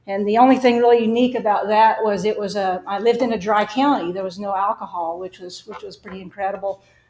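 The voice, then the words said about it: Slight Arkansas Southern accent. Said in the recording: “You can probably tell I have a little bit of an accent. I grew up in Arkansas.”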